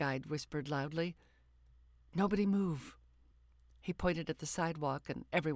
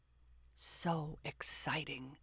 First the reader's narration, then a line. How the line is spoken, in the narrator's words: the guide whispered